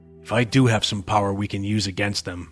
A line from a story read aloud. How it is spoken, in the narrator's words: Max growled